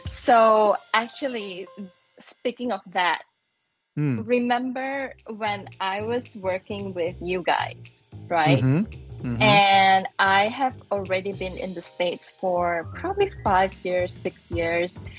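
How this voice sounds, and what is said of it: Accent between Malaysian and American. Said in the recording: “my accent was already a little bit Americanized, although you can hear right now, but it was already, you know, it's not really the Malaysian, authentic Malaysian accent, and it's not American accent, it's somewhere in between.”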